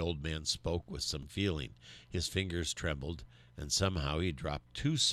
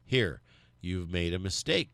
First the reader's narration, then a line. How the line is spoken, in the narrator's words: cried Bert